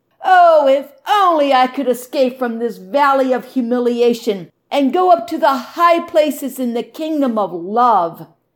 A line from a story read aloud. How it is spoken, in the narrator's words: she wailed to the shepherd